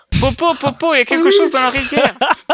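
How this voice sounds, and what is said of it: Put-on Normandy French accent. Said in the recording (French): “une espèce d'accent normand”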